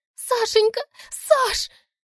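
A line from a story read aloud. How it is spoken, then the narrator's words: Wild shrieking, sobbing. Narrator (Russian): С диким визгом Лиля скуля и обливаясь слезами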